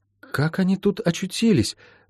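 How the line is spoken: Whisper. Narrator (Russian): прошептала Молли

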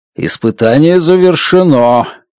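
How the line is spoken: Announcement. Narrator (Russian): объявил Дмитрий

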